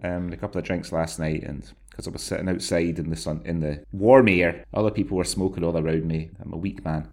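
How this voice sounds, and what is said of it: Voice deeper than usual. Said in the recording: “my voice is a little deeper today because I succumbed to the lifelong addiction of having a cigarette yesterday”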